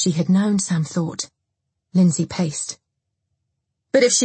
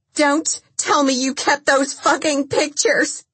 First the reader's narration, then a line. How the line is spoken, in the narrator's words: Lindsay shrieked